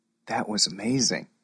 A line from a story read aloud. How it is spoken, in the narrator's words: whispered Max